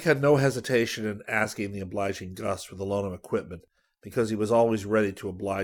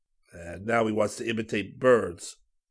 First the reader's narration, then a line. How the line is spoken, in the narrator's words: Gus groaned